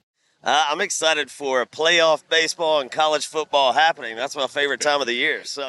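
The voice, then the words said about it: Mild Southern American accent. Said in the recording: “you can hear that he has a relatively mild version of the Southern accent”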